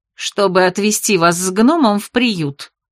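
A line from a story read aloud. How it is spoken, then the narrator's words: Angry declaration. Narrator (Russian): сердито заявила Бет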